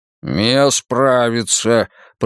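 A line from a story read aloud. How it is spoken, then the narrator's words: Growled. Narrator (Russian): прорычал Мунк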